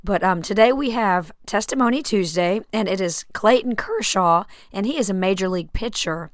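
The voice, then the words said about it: Voice affected by a cold. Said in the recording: “excuse my voice, I have caught a little cold and it all went straight to my voice”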